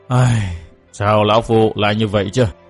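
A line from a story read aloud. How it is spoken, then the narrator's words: Pained sigh. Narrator (Vietnamese): Thiết Tán Tôn giả đầy vẻ đau khổ, buông tiếng thở dài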